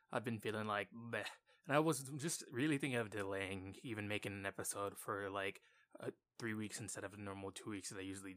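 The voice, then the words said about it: Sick-sounding voice. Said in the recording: “I'm obviously sick. If you can't hear in my voice, it's there, definitely.”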